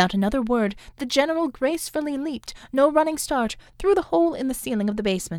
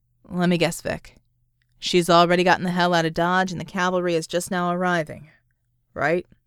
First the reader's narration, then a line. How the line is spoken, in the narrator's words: Vicky sighed